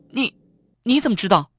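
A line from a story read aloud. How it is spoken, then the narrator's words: Shocked, nearly crying out. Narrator (Chinese): 方圆心头猛然一震，几乎叫了起来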